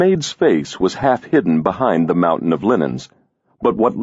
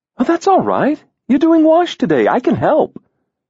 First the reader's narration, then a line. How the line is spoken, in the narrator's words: she said cheerfully